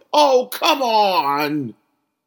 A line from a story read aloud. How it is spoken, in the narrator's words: Rembrandt shouted to the sky